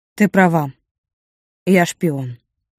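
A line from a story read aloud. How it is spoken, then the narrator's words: Wry, bitter. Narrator (Russian): наконец выдал супруг и грустно усмехнулся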